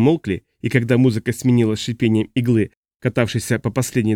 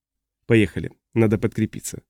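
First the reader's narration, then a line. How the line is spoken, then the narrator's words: Quiet suggestion. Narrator (Russian): тихо предложил Флойд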